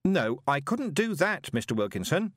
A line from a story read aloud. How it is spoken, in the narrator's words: said Moist loudly, after a decent pause for dramatic effect